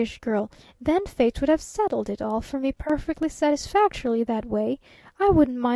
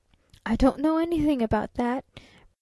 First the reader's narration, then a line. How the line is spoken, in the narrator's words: persisted the traveling salesman